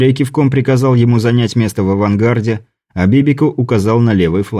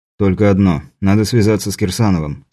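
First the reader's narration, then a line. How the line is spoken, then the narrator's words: Calm reply. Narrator (Russian): спокойно ответил квестер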